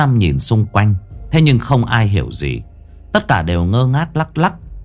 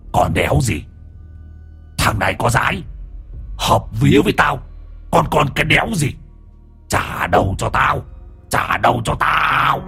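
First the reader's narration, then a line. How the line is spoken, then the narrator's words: Growling. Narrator (Vietnamese): Hoàng Anh giọng gầm gừ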